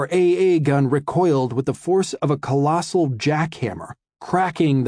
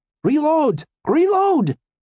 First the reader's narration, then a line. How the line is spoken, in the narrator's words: Fritz cried